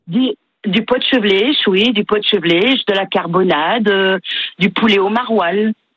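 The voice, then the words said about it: Slight northern French accent. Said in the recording (French): “vous avez un petit accent schnorr qui traîne”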